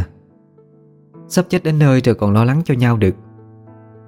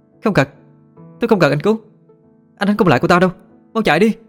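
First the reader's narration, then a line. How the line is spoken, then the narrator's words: Screamed. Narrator (Vietnamese): Thanh Trà hét lên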